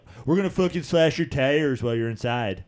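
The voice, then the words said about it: Put-on Philadelphia accent. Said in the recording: “What was that accent, that by the way? Philly, Wawa,”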